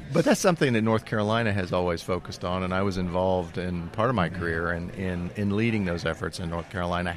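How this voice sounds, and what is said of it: North Carolina drawl. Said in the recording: “you noted my Carolina drawl. ... North Carolina, and that's where I'm from.”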